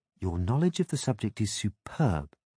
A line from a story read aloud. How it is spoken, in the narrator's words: she said in a honeyed voice